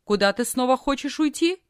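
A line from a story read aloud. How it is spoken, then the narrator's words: Stern question. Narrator (Russian): тетя строго спросила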